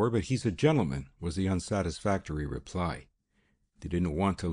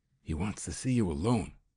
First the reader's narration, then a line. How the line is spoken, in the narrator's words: she said in a stage whisper